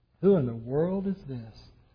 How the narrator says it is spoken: Goliath must have muttered to himself

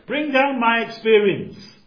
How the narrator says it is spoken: shouted to his wife upstairs

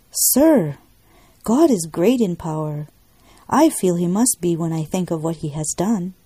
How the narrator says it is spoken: he exclaims

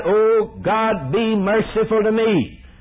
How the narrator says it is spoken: The publican cried

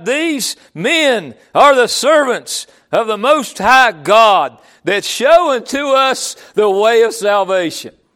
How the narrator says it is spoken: This woman that had this unclean spirit, cried

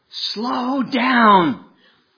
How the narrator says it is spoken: that park ranger shouted

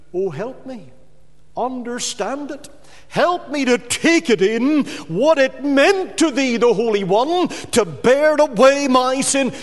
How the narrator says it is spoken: she pleaded

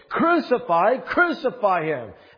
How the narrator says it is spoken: kept shouting

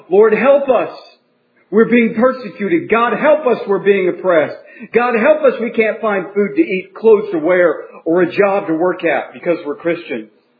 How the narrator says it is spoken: the cries of his people who have called out

